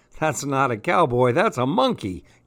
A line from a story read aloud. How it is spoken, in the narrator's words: giggled the princess